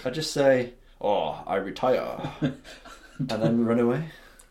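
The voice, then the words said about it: Put-on Japanese accent. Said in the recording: “That is a brilliant Japanese accent”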